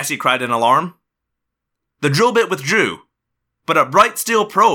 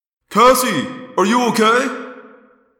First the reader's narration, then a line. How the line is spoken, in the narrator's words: Jake yelled